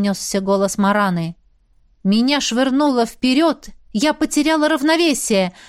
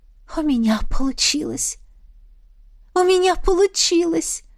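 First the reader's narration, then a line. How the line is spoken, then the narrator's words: Whisper. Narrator (Russian): прошептала я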